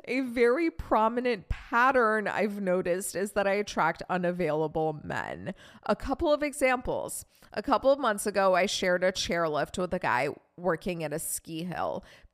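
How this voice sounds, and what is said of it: Reading aloud with a weird twang. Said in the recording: “I'm so sorry that I'm reading so weird today ... It's like I have this weird twang.”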